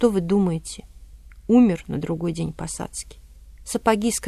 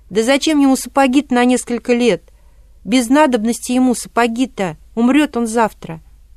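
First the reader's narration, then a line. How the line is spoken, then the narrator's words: Tearful, desperate shout. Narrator (Russian): выкрикнул Васька, в слезах, отчаявшись, выкрикнул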